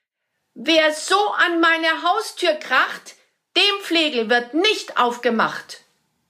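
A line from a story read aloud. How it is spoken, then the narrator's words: Called out. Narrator (German): rief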